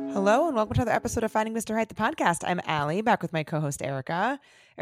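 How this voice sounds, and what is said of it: Scratchy, strained voice. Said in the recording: “my voice is very scratchy ... I can't even talk ... my voice is like on its last leg”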